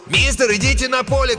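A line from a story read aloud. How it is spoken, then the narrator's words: Shout. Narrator (Russian): крикнул один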